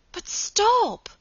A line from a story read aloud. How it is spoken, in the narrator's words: cried Margaret, horrified